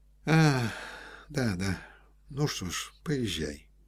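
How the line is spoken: Soft. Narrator (Russian): сказал мягко Рябовский

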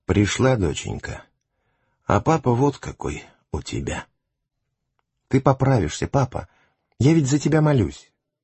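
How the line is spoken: Weak whisper, father. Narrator (Russian): Отец очнулся после операции, и хотя ему было тяжело разговаривать, но он все же прошептал

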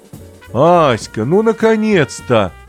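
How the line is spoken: Sudden joyful shout. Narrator (Russian): вдруг крикнул кто-то

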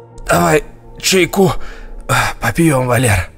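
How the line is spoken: Hoarse, out of breath. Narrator (Russian): прохрипел запыхавшийся дядя Жора

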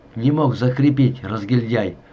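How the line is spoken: Angry. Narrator (Russian): злобно оглянулся Климченко

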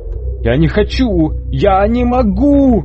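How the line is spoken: Shouting. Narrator (Russian): кричал он

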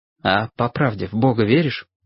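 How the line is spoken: Quiet question. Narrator (Russian): тихо спросил Лесь

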